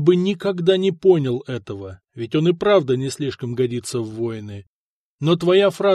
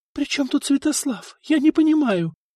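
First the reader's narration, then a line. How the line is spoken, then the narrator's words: Confused whisper. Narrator (Russian): растерянно шептала Мария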